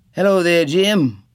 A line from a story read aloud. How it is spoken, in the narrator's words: the tallest one called out